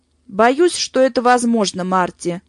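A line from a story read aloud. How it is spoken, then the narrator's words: Grim, gloomy. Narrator (Russian): мрачно произнес Браун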